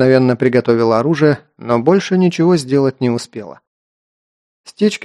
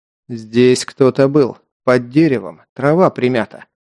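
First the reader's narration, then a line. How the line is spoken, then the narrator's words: Tense wooden voice. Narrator (Russian): улыбчивый ковбой вдруг напрягся и деревянным голосом произнес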